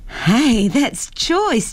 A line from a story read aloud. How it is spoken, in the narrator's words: Jennifer laughed